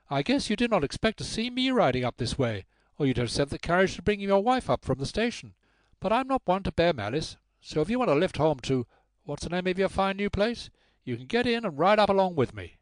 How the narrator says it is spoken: she said in a high, distinct voice with a strong American accent

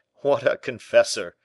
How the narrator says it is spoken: said the governor, forcing a laugh

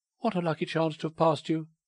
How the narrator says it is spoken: cried Irene

